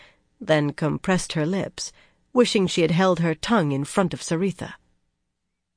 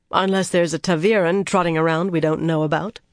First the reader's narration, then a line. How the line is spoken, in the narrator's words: she replied dryly